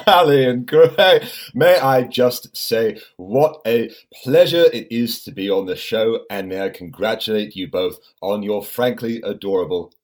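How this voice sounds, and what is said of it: British-sounding accent. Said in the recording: “your accent he sounds a bit like um, James Bond or ... James Bond or John Lennon”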